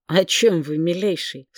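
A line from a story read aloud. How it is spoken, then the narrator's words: Unsmiling, through gritted teeth. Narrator (Russian): столь же неулыбчиво, как мой собеседник, процедила я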